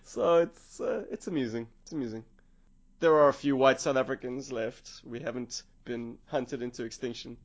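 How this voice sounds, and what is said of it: South African accent. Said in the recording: “he caught my accent and asked, "Hey man, where you from?" I was like, "South Africa."”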